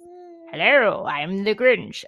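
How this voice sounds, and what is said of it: Cartoon character voice. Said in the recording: “How does he do his voice?”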